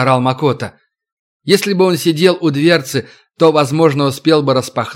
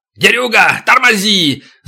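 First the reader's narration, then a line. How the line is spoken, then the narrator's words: Yelling. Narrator (Russian): заорал Макото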